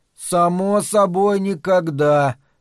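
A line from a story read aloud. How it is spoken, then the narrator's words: Sleepy. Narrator (Russian): сонно ответил Том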